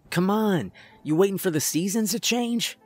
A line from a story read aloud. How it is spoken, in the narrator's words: Dax shouted